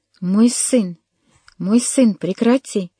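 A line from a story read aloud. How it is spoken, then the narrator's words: Exclaiming. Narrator (Russian): воскликнул он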